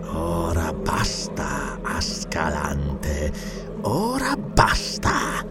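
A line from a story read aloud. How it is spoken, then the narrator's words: Murmured. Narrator (Italian): mormorò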